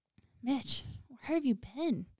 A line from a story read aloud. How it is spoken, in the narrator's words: He said, his voice strained with sadness